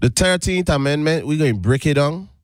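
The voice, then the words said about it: Caribbean accent slipping through. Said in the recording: “See how my accent just be trying to slip out... That Caribbean dude be fighting to get out.”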